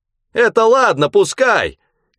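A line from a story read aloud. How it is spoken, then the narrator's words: Old man shouting. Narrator (Russian): кричал дед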